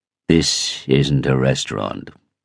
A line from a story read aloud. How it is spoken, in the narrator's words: said icily